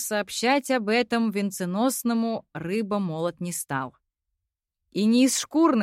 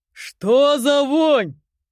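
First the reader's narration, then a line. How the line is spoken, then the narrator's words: Booming deep bass. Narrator (Russian): Громыхнул басом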